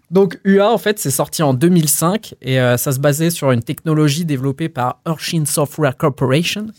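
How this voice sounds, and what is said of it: Imitating Frédéric Mitterrand's voice. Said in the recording (French): “Tu peux le faire avec la voix de Frédéric Mitterrand. ... Bel accent.”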